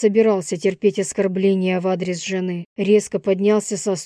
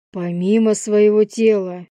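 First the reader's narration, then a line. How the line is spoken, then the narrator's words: Menacing repetition. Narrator (Russian): грозно повторил я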